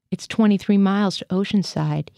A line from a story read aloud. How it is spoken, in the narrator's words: said